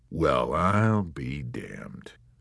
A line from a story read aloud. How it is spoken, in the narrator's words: mumbled, and his ruddy, monolithic face softened with amusement